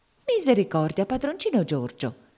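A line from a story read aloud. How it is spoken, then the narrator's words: Frightened exclamation. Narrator (Italian): esclamò spaventata la zia Chloe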